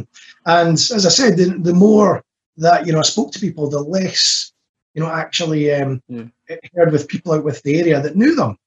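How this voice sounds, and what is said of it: Distinctive Edinburgh Scottish accent. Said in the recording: “distinctive accent ... we are in Edinburgh”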